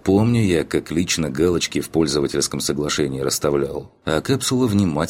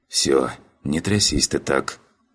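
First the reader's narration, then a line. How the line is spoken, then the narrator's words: Soft whisper. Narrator (Russian): прошептал я негромко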